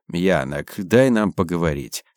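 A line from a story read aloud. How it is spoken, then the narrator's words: Calm request. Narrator (Russian): спокойно попросил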